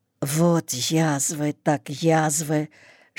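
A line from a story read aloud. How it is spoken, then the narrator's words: Whisper. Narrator (Russian): шептал он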